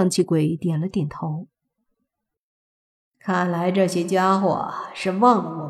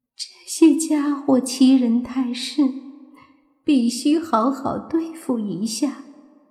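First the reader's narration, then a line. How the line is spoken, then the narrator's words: Coy tearful voice. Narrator (Chinese): 喜气鬼也娇声娇气，带着哭音说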